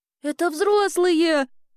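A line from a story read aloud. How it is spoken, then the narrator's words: Frightened cry. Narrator (Russian): испуганно вскрикнула Элли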